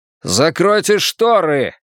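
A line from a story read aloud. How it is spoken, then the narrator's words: Barked. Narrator (Russian): рявкнул он кричащей медсестре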